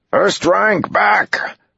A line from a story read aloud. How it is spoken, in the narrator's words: Uno yelled